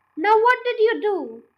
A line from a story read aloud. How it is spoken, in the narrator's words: cried Mr